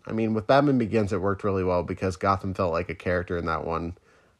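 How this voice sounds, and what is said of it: Voice affected by a cold. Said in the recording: “save my voice for that because I have a bit of a cold”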